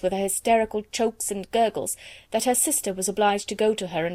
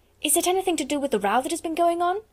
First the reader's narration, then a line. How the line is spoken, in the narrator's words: said Lavinia eagerly